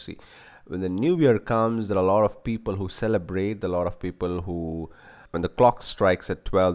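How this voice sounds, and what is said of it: Rough, sore-throated voice. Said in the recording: “I'm sorry about the throat and the bad voice, because ... I have a sore throat.”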